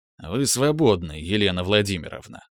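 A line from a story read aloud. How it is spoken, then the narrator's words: Grumbling. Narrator (Russian): проворчал Иванов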